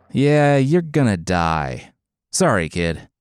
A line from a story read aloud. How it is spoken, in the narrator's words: he laughed, and then stopped his laughter